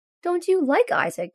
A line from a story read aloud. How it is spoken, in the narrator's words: Scott asks sadly